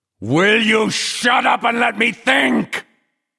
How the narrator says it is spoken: Flagg howled

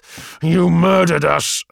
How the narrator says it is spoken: I snarled

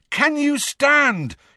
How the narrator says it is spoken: he bellowed in Neville's ear

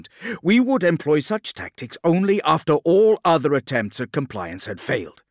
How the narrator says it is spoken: Gilliman added sharply, tiring of his brother's attacks

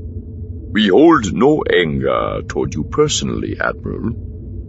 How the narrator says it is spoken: Elagos said calmly

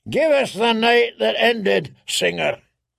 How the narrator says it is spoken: he bellowed

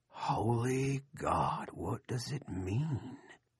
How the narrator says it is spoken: Sea Dogs whispered

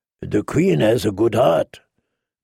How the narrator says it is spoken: Dario purred through his deep purple whiskers

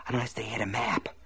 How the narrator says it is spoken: Ace whispered

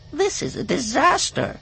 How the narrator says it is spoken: Dauphine whined

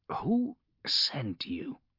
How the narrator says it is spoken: he croaked

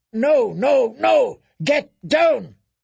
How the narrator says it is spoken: His answered roar was full of fear and fury, full of pain

